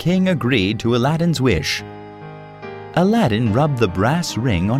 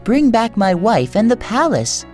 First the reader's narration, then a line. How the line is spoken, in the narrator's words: begged Aladdin